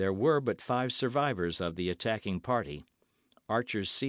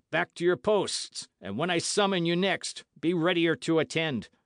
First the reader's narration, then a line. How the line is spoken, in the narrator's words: cried the deformed leader